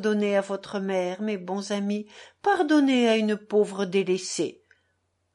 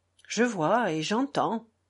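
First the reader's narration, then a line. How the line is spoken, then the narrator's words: Murmured. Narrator (French): murmura Alyosha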